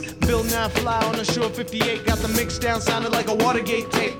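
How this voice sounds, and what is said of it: Rapping in an American accent. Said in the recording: “You sound like an American.”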